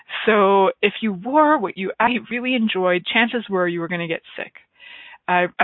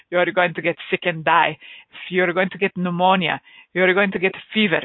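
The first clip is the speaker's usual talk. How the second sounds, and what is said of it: Imitates another person's accent. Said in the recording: “I'll try and do it in my dad's accent”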